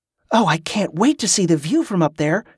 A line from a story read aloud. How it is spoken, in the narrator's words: said eagerly